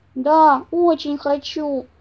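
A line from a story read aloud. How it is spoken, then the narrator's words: Sad reply, bear cub. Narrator (Russian): грустно ответил медвежонок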